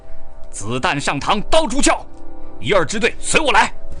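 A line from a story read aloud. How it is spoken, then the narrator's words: Shout. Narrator (Chinese): 张二会喊了一声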